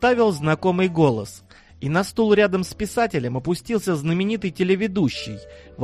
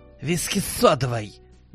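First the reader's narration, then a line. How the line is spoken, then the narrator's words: Curt, tossed-off remark. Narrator (Russian): Бросил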